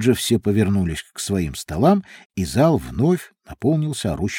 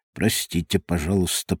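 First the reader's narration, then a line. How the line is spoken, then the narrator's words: Mutter. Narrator (Russian): пробормотал он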